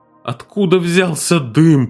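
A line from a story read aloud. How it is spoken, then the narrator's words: Moaning. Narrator (Russian): простонал Виктор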